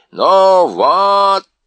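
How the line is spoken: Shouting. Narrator (Russian): закричал он

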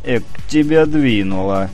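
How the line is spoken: Bursting into laughter. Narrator (Russian): Саша расхохотался

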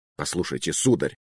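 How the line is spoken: Irritated answer. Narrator (Russian): раздраженно ответил архиепископ

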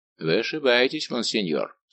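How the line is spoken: Dry. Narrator (Russian): сухо заметил Атос

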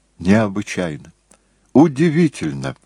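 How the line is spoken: Finally exclaiming. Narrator (Russian): воскликнул, наконец, Джессон

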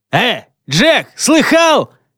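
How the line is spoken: Shout. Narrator (Russian): Вдруг кто-то крикнул

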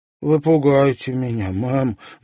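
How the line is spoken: Trembling voice. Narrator (Russian): дрожащим голосом проговорила Луиза

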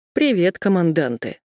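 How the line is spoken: Gruff mutter. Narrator (Russian): я буркнула

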